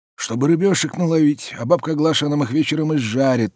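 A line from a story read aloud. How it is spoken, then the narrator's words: Hoarse smoker's old voice. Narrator (Russian): сиплым прокуренным голосом отвечал дед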